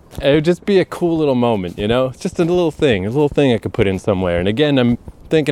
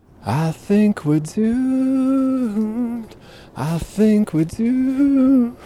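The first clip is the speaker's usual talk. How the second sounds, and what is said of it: Poor falsetto singing. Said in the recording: “My falsetto is real bad.”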